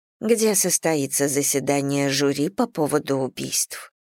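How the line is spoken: Quiet female voice. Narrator (Russian): проговорила она тихо

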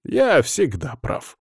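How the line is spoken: Snorted. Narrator (Russian): фыркнул Эксара

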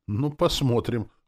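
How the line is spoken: Snorting, then asking. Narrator (Russian): хмыкнул я и спросил

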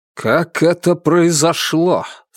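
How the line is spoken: Menacing question. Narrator (Russian): грозно спросил Николай

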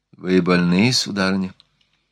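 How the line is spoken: Sympathetic. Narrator (Russian): сказал он сочувствующим тоном

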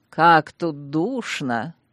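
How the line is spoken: Soft, mocking sing-song. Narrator (Russian): Хорошо знакомым всем клиентам, мягким, чуть насмешливым голосом пропела Луизиена

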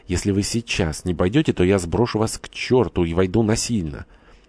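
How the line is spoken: Whispered. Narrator (Russian): Горданов прошептал

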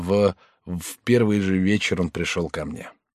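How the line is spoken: Maid's collapsed mumble. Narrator (Russian): Горничная, вся рухнув на пол, пробормотала

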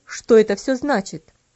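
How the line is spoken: Stern, angry. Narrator (Russian): спросил он строгим, сердитым голосом

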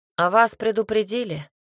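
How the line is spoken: Bearded man said, then barked. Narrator (Russian): сказал бородатый, затем рявкнул

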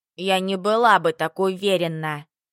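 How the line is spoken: Muttered under breath. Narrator (Russian): Буркнула себе под нос Еринка

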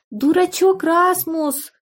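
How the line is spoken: Child shouting. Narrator (Russian): внучка Эльза закричала

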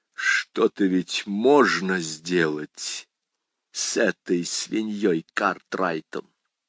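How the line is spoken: Quiet strangled voice. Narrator (Russian): Фоули сказал тихим, придушенным голосом

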